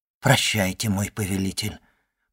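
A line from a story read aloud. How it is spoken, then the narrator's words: Submissive whisper. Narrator (Russian): покорно прошептала моя мать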